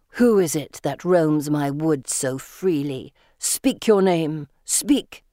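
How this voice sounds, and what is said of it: Low snarling voice. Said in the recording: “adopting a low snarl of a voice”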